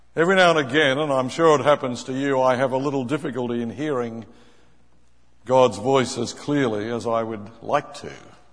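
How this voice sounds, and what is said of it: Australian accent. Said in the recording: “sounding more Australian this morning than usual”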